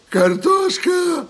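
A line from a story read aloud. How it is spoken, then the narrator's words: Screamed. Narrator (Russian): завопила Тия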